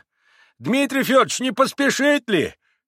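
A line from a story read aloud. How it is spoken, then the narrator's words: Sudden shout. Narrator (Russian): крикнул вдруг Андрей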